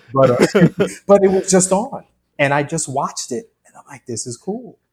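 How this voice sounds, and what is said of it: Long Island accent. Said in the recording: “growing up in Long Island, that's where I grew up ... that explains the accent right there.”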